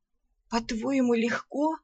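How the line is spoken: Rasp. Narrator (Russian): прохрипела я

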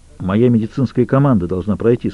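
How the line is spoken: Plain. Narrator (Russian): сказал Джек

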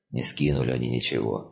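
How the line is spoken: Reluctant grumble. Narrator (Russian): неохотно буркнул Серж

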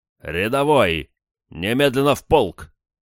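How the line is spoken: Gruff bark. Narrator (Russian): рявкнул он

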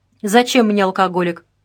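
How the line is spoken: Scoffing snort. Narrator (Russian): хмыкнул Вашко

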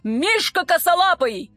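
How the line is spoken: Parade-ground bark. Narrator (Russian): рявкнул полковник так, будто отдавал приказ полку на плацу

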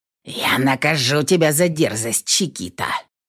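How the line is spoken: Hissing. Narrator (Russian): прошипел он

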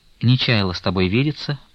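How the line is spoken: Calmer added. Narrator (Russian): прибавила она более спокойно

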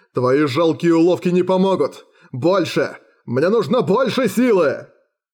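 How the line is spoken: Roar. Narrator (Russian): Джоралис взревел

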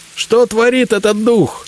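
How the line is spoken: Shouting. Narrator (Russian): крикнул мне Зотов

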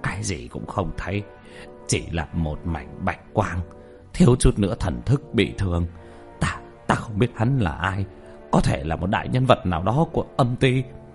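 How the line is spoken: Frightened bewildered mutter. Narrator (Vietnamese): Nhất Tâm vẻ mặt mờ mịt sợ hãi, lẩm bẩm

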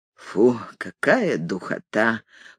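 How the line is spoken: Whisper. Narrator (Russian): прошептал этот господин

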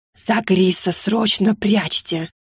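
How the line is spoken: Whispered advice. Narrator (Russian): шепотом посоветовала

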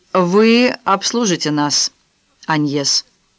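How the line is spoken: Plain. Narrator (Russian): сказала ей Кароль

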